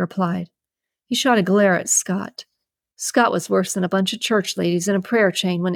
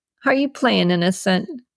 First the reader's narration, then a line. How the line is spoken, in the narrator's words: Tyson chuckled